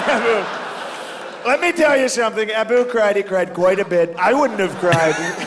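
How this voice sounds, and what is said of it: Strong Donald Trump impression, pauses. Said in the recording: “That's a great Trump impression. That is so much better than the majority of Trump impressions. ... Because of the pause.”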